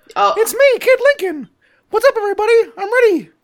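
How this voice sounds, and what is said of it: High-pitched cartoon mouse kid voice. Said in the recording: “do a kid voice... I'll just do a Mickey Mouse voice”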